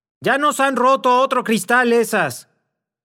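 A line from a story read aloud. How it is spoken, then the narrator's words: Angry shouting voice. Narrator (Spanish): una colérica voz que gritaba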